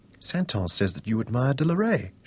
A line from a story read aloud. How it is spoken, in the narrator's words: said quietly